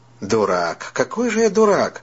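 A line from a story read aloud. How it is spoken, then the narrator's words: Anguished exclamation. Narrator (Russian): воскликнул Дэниел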